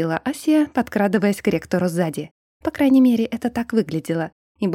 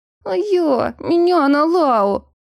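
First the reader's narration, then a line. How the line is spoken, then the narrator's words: Whining. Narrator (Russian): заскулил Еремар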